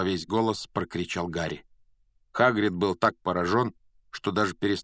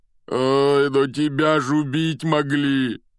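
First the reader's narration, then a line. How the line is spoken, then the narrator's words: Moaning. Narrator (Russian): простонал Хагрид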